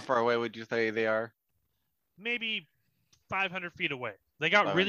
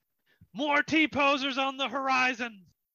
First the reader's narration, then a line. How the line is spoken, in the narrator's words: Captain Gilly Goffin yells out